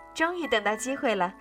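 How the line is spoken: Giggling. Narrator (Chinese): 阿德咯咯笑着说

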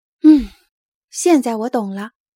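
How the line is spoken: Sighing. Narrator (Chinese): 皮杜尼 他叹了一口气，说

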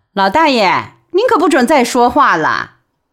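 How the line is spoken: Laughing. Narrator (Chinese): 江亚芬笑着说

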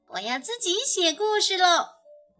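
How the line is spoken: Clamoring. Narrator (Chinese): 它嚷嚷着

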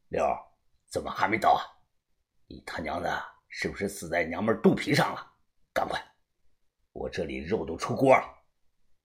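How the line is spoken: Hoarse voice. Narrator (Chinese): 声音有些沙哑

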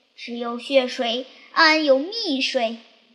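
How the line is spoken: Loud cry. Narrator (Chinese): 大叫一声

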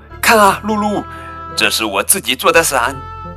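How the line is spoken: Calling out. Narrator (Chinese): 亚克叫道

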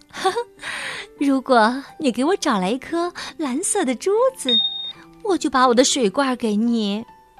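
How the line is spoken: Girl laughing. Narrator (Chinese): 姑娘笑了，说

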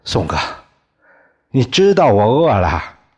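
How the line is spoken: Startled, then beaming. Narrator (Chinese): 李光头吓了一跳，眉开眼笑的说

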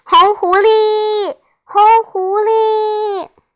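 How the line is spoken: Loud chorus of children. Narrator (Chinese): 小伙伴们齐声高叫

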